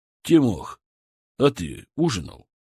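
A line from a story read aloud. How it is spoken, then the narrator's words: Plain. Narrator (Russian): спросил внука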